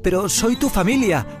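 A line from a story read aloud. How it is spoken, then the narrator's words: Shouting. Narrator (Spanish): gritó Miguel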